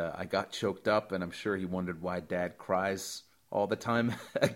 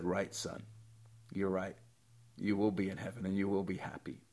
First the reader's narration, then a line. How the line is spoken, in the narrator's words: I got choked up, and I just said